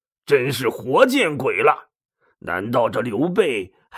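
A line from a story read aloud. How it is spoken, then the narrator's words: Resentful muttering. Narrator (Chinese): 他恨恨的嘟囔着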